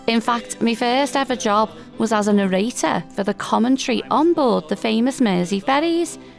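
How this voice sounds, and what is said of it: Liverpool Scouse accent. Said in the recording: “a genuine Liverpool accent, that Scouse to us locals ... my Liverpool accent”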